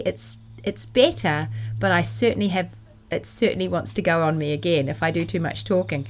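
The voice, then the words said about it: Slightly croaky voice. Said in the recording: “you can still hear my voice is a little bit croaky ... I was really squeaky and croaky”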